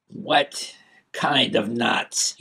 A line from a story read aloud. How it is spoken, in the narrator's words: He snarled